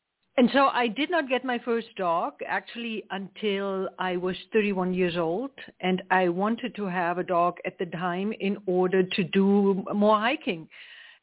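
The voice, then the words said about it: German accent. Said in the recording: “as you can hear, my accent is not from South Georgia. I'm actually from Germany. I grew up in East Germany”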